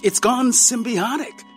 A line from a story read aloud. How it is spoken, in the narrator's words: exclaimed